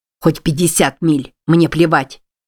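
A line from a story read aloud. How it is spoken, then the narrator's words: Bark. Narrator (Russian): рявкнул Билли, полный отвращения к себе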